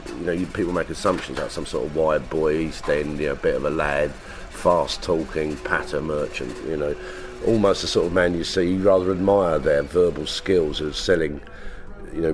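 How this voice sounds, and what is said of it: Strong London accent. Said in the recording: “It was quite a strong accent, a strong London accent ... cockney patter type thing”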